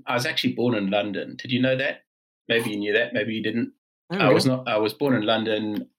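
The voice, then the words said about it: South African accent. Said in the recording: “you do not have the classic Geordie accent ... the accent is South African, and that is because I was brought up in South Africa”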